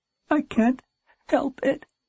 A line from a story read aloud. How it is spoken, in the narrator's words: swallowed, one final burst of sobs came out